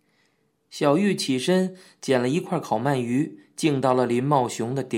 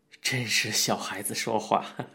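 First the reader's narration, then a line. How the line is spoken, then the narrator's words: Laughing. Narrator (Chinese): 林茂雄笑着说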